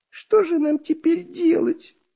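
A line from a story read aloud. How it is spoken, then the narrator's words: Tearful whine. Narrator (Russian): плаксивым голосом заныл Дырка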